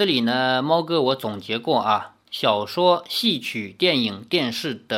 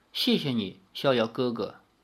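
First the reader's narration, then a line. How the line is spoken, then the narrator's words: Soft voice. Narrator (Chinese): 赵灵儿轻声说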